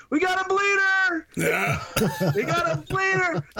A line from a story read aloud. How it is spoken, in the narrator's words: He's yelling